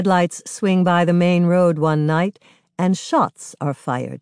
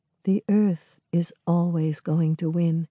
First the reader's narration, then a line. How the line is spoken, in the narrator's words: Maidenhair murmurs